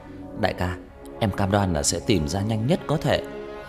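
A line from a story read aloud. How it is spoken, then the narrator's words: Pleading. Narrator (Vietnamese): Nam nói bằng giọng van xin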